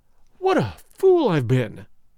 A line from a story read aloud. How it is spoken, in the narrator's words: he cried